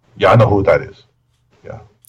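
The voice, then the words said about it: Put-on Czech accent. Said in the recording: “What kind of accent was that? ... I was imagining Czech”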